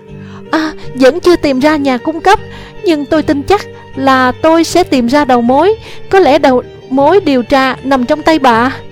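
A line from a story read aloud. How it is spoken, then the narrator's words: Excited shouting on phone. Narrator (Vietnamese): Nola hét trong phone, giọng đầy hào hứng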